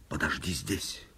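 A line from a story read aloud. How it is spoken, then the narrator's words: Baron's whisper. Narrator (Russian): шепнул барон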